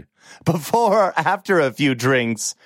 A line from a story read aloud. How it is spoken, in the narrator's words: She laughed